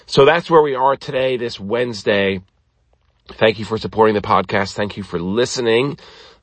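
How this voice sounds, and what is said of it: Voice slightly off from illness. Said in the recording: “I'm feeling better... you can tell my voice is still off a little bit”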